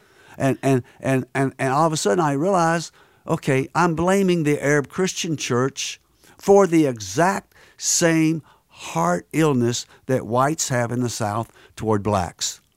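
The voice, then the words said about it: Southern American accent. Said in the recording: “I'm from the South. I bet you couldn't tell by my accent.”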